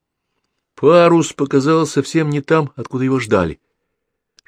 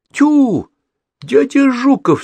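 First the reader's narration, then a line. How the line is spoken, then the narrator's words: Childlike exclamation. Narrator (Russian): совсем по-детски воскликнул Гаврик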